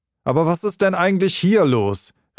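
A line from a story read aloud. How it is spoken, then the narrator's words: Sudden exclamation. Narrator (German): rief plötzlich aus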